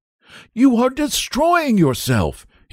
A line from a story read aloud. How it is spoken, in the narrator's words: he cried